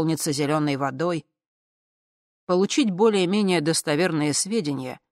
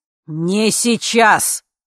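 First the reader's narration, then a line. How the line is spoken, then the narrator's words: Barked. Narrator (Russian): рявкнул А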